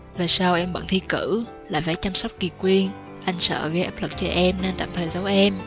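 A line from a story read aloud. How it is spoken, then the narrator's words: Gentle, tender. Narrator (Vietnamese): Lục Song dịu dàng nói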